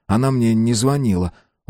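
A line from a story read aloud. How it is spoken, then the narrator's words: Sighing. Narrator (Russian): вздохнул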